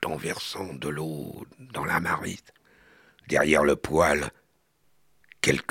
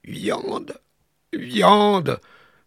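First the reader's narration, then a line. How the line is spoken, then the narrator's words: Bearlike groan. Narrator (French): entendit-on gémir comme une voix d'ours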